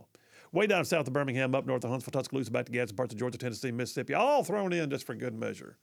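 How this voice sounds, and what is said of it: Put-on Southern twang. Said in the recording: “I think I got into like some kind of southern twang there. ... You were starting to sound real southern.”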